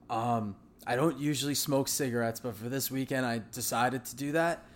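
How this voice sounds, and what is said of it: Voice sounds rough and damaged. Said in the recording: “I apologize for my voice... I think that's what happened with my voice”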